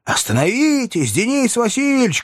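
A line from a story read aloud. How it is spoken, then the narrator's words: Shouted by many men. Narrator (Russian): кричали мне вслед боевые офицеры и простые казаки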